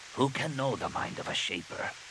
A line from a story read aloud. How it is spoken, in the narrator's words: He said softly